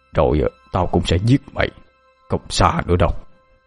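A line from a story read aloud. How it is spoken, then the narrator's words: Murderous muttering. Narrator (Vietnamese): ông ba Lý, ánh mắt như muốn giết người, miệng lẩm bẩm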